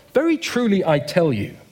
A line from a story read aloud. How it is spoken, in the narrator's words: Jesus answered